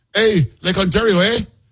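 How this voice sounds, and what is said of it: Imitates a Canadian politician's voice. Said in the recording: “that's a spot-on impersonation of this guy Ford, wow, who's like the premier or whatever of Ontario”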